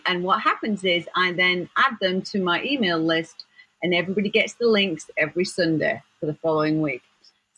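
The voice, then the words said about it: English accent. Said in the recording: “And yes, I'm English ... I love your accent”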